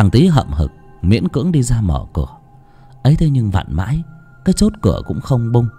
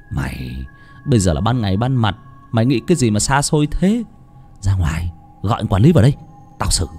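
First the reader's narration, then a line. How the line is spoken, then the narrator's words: Bossy big-brother tone. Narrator (Vietnamese): Thằng Vinh nói bằng giọng đàn anh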